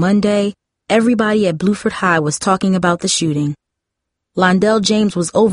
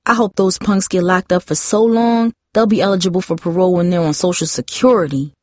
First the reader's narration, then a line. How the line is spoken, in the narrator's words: Tara said